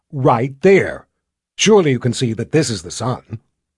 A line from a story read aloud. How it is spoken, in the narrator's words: Violet said in a snippy voice